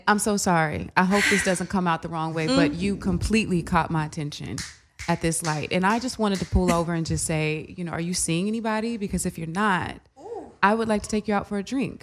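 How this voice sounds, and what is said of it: Smooth radio-announcer voice. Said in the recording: “that was like your radio voice, too.”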